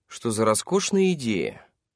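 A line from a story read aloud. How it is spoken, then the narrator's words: Sarcastic tone. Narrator (Russian): Судя по тону, Ламберт думала строго противоположное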